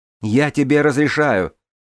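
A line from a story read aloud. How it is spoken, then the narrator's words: Shouting out. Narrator (Russian): выкрикнула я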